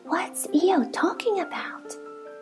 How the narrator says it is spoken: Piglet whispered to Pooh

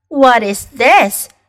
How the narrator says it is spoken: she cried

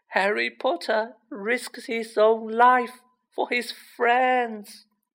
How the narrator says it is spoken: moaned Dobby in a kind of miserable ecstasy

